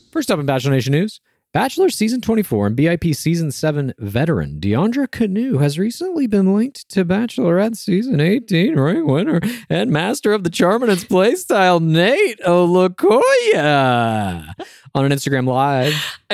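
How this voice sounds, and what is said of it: Intriguing gossip-reporter voice. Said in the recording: “I like this gossip accent you have ... I was trying to put some intrigue into it”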